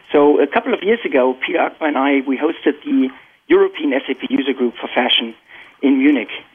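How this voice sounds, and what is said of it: German accent. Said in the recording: “I'm born and raised in Germany, and you can probably still detect my accent.”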